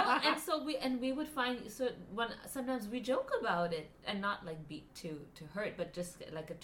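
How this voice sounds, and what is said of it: Usual voice. Nothing is said of it.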